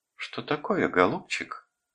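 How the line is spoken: Affectionate question. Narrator (Russian): спросила она ласково так

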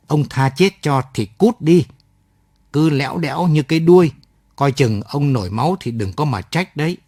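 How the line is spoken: Hissing through teeth. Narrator (Vietnamese): nói rít qua kẽ răng

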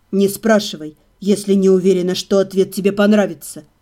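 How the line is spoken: Whisper. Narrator (Russian): прошептал он

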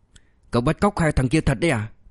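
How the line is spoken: Horrified hiss through teeth. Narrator (Vietnamese): Sài Trâm Sơn mới thực sự kinh hoàng, hạ thấp giọng xuống, nói như rít qua kẽ răng

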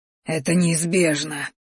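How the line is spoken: Hoarse wheeze. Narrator (Russian): прохрипел боевик

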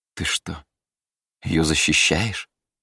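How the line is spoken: Vexed sigh, queen. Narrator (Russian): Королева Эддиса с досадой вздохнула

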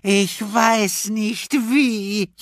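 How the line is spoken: Wailing in despair. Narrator (German): jammerte Leslie

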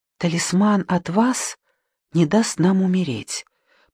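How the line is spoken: Sick woman's whisper. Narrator (Russian): прошептала вторая больная

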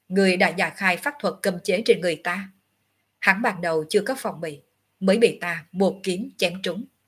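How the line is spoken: Cold. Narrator (Vietnamese): Ngọc Hư Tử vẫn lạnh lùng

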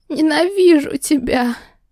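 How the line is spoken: Hoarse wheeze. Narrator (Russian): Прохрипела

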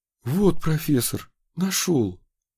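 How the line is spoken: Breathless. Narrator (Russian): выдохнул он

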